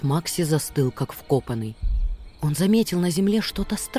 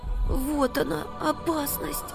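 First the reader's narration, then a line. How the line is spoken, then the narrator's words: Frightened whisper. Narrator (Russian): прошептал испуганно Макси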